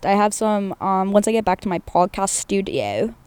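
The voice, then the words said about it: Briefly slips into British accent. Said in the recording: “I want a British accent for a second”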